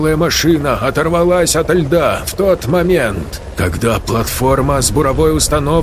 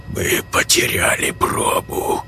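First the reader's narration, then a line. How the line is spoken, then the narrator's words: Hoarse mutter, scientist. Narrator (Russian): хрипло пробормотал ученый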